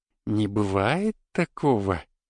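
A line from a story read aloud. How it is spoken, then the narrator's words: Surprised, sweet voice. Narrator (Russian): удивленно произнесла лихо все тем же милым голосом, который жутко не соответствовал внешности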